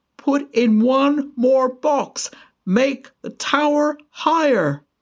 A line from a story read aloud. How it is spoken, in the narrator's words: he shouted, his voice echoing downwards